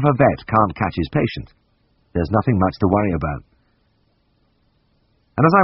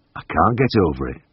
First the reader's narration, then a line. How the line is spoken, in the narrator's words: murmured